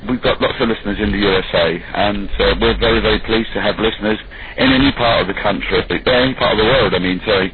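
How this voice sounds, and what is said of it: English accent. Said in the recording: “people love that English accent”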